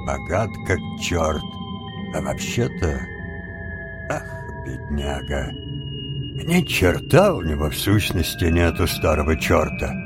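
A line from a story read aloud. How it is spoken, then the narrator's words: Muttering. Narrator (Russian): Джонни пробормотал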